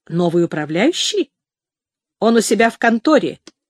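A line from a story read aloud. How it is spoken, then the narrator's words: Harsh tone. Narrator (Russian): проговорил Хенчерд резким тоном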